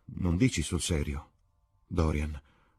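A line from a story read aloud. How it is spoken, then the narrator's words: Murmured. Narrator (Italian): mormorò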